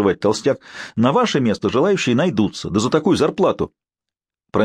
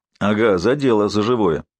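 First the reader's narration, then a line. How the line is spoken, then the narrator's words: Triumphant grumble, fat man. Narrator (Russian): торжествующе проворчал толстяк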